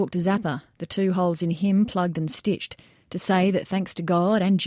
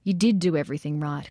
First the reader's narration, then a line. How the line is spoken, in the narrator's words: Kozlerich said